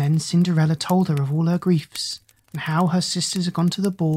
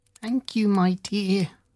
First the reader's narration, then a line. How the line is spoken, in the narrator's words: said the old woman in a feeble, croaking voice